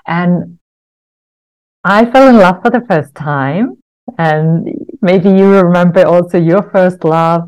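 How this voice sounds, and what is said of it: Finnish accent. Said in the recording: “where this accent is from, I was growing up in Finland”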